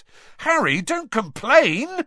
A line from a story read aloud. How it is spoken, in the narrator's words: Ron yelled excitedly